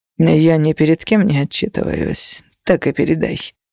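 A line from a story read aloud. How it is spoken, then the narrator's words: Gloomy. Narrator (Russian): мрачно заметил Феникс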